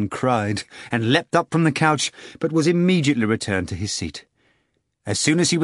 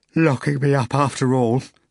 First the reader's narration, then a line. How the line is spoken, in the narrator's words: he said, yawning again